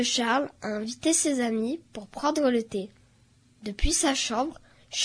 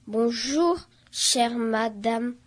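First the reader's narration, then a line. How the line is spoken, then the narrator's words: Very slow, over-articulated. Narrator (French): dit Charles très lentement, en articulant chaque mot exagérément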